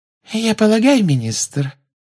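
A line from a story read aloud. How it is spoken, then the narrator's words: Silky voice. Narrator (Russian): шелковым голоском сказала Амбридж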